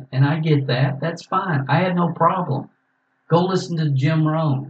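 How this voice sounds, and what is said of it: Southern American accent. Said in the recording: “I just can't listen to your Southern accent.”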